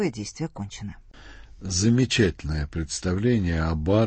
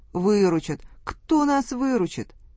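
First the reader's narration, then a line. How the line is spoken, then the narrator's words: Whiny, tearful voice. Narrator (Russian): Барин плаксивым голосом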